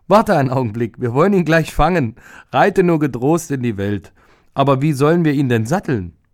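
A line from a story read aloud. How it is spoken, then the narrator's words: Loud laughing speech. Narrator (German): Aber die Frau lachte laut und sagte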